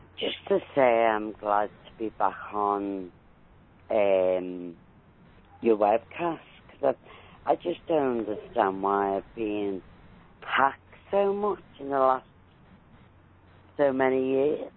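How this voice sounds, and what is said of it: British accent. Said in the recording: “you have the accent”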